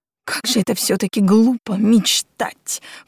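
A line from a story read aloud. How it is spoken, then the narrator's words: Snorting napkin. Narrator (Russian): фыркнула глупая белая салфетка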